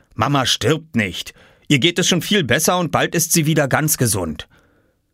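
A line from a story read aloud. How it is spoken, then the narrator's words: Horrified shout. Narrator (German): rief Papa entsetzt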